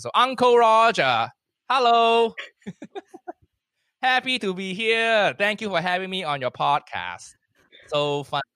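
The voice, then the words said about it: Put-on Asian accent. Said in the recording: “I do an Asian accent. It's just me with an Asian accent.”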